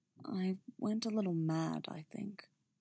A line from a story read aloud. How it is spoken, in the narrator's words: Very quietly, he added